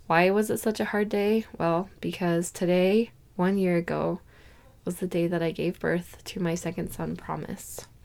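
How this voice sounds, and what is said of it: Hoarse, partly lost voice. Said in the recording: “I lost my voice and it's slowly coming back. But if it sounds funny”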